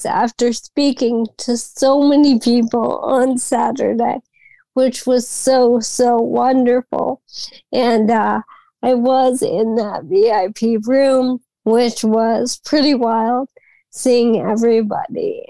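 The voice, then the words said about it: Strained voice, still recovering from voice loss. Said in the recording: “As everyone can hear, I'm still regaining my voice after that weekend... my voice has been through trials and tribulations... having lost my voice”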